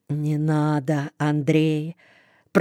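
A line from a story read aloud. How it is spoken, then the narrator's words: Muttering to himself. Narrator (Russian): Про себя бормочет Коншин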